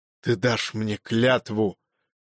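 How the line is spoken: Whispered. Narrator (Russian): шепнул Ванакт

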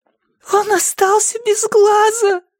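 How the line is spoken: Tearful cry. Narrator (Russian): сквозь слезы выкрикнула она

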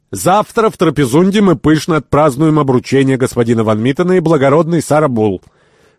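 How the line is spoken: Loud. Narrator (Russian): господин Янар громко сказал

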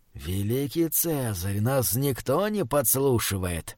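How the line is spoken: Hoarse whisper. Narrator (Russian): хрипло прошептал гадатель

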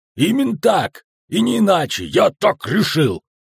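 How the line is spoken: Shouting. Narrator (Russian): слова Ярпина, который кричал

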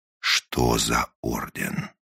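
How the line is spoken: Menacing, repeating. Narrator (Russian): грозно повторил он свой вопрос

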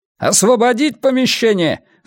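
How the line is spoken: Shout from behind. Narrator (Russian): закричал кто-то у него за спиной

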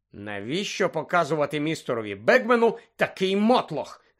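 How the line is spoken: Hissed. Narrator (Ukrainian): засичав Персі

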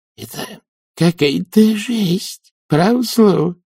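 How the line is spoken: Hissed. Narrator (Russian): прошипел нянюшка

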